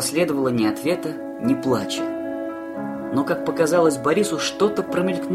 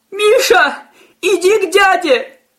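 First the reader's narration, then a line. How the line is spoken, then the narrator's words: Old woman shouting. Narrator (Russian): прокричала бабулька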